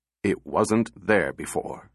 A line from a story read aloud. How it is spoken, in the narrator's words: said Powell, curtly